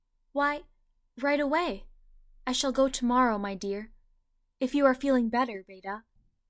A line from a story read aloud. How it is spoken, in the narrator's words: Yates answered in an irreproachably natural tone